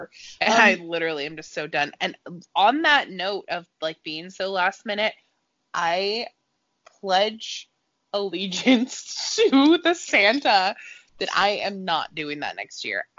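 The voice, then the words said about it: Sick, tired-sounding voice. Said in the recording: “You can probably hear it in my voice. I am sick and I'm tired and I'm exhausted”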